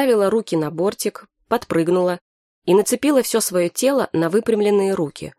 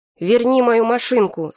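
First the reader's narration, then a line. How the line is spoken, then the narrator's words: Plain. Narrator (Russian): сказал московский Вася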